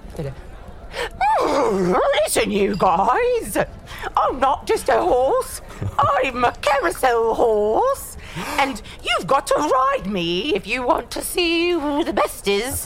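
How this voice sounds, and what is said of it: Silly horse character voice. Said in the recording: “should I do a horse voice? ... Let me do a horse voice.”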